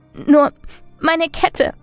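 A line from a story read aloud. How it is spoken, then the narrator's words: Sobbing. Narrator (German): schluchzte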